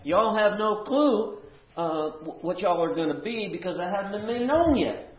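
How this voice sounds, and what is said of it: Put-on southern drawl. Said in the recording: “the southern drawl”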